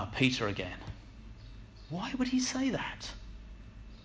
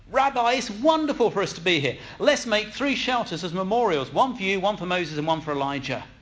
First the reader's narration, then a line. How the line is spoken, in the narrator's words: Peter exclaimed